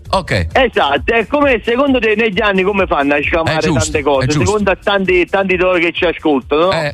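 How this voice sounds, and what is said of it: Non-Tuscan Italian accent. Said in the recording (Italian): “l'accento non è toscano”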